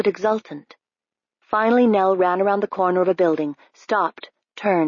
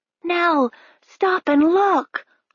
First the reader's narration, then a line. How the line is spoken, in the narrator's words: Harv cried